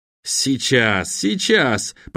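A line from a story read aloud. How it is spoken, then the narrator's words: Muttering boy. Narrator (Russian): пробормотал мальчишка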